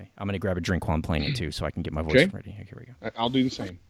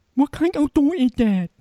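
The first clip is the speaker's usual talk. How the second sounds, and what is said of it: Imitated female voice. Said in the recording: “do the female voice”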